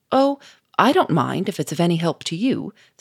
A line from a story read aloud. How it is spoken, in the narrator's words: said the Duke cheerfully